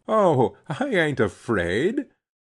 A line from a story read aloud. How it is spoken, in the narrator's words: she laughed